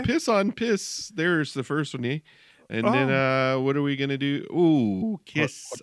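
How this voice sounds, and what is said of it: Weird put-on Canadian accent. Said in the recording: “I have a weird Canadian accent, kind of.”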